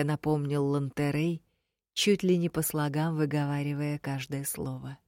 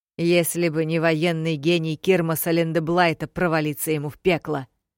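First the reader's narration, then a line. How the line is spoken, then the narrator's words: Angry snort. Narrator (Russian): зло хмыкнул командующий Билик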